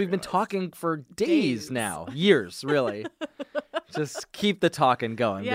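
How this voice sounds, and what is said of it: Usual voice. Nothing is said of it.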